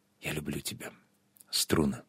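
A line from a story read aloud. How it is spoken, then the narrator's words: Very quiet whisper. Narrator (Russian): Очень тихо, чтобы он не услышал, прошептала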